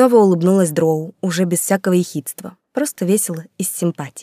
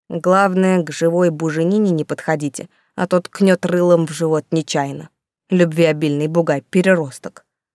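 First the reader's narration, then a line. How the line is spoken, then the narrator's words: Distrustful grumbling. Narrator (Russian): пробурчал телохранитель, давно питавший недоверие и антипатию к ручному таверновскому кабану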